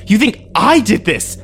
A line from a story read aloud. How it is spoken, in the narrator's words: I screamed at him